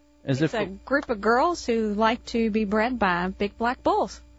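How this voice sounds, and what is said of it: Slight Kentucky accent. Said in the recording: “I'm detecting a little bit of an accent there ... I am from Kentucky ... she has that accent”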